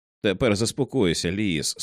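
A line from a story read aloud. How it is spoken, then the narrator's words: Calm speech. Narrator (Ukrainian): спокійно промовив Тед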